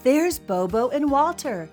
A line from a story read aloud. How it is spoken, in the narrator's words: cried Billy